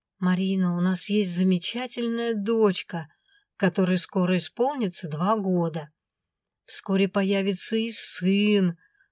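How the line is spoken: Gentle coaxing dragon. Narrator (Russian): начал ласково уговаривать меня дракон

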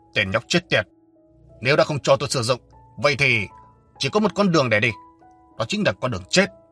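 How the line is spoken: Cold, grim voice. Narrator (Vietnamese): sắc mặt Âu Dương Lãng dần trở nên thâm trầm, giọng nói lạnh lùng cất lên

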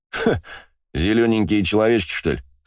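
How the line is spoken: Snorting. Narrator (Russian): хмыкнул водила

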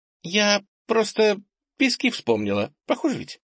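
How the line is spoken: Slightly embarrassed, after laughing. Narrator (Russian): прекратила смеяться и чуть смущенно сказала

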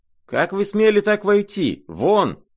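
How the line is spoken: Trembling shout, barely articulate. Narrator (Russian): кричал он, дрожа и даже едва выговаривая слова

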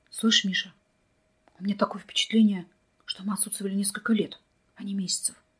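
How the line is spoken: Whisper. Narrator (Russian): почему-то шепотом проговорил Вадим

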